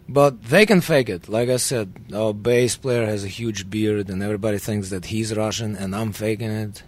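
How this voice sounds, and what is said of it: Russian accent. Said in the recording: “I have to, like, emphasize my Russian accent”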